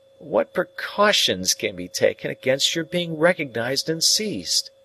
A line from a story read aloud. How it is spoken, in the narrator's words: I resumed, half-groaning